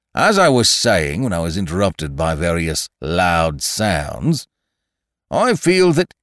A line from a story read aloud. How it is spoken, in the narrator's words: said Eeyore, loudly and sternly